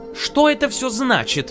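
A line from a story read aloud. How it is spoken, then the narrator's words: Exclaimed. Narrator (Russian): воскликнула Белла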